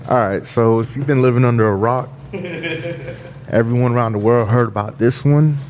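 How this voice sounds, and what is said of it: Deep, loud news-anchor style voice. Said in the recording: “my news anchor guy, you know, Mr. Deep Voice, you know, Mr. Loud Voice”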